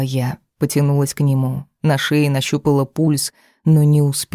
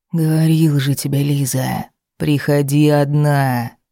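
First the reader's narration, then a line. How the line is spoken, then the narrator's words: Hoarse whisper, close. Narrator (Russian): Хриплый шепот опалил шею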